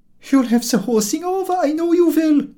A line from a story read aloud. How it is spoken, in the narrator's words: cries the old lady, pathetically, struggling with all her feeble strength